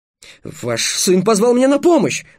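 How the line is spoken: Yelling. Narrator (Russian): завопил Трикс

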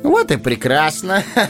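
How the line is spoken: Laughing. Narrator (Russian): засмеялся Фродо

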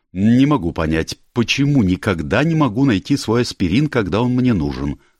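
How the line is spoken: Angry. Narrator (Russian): сказала она сердито

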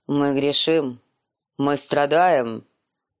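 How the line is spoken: Booming bass voice. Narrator (Russian): проговорил он гулким басом

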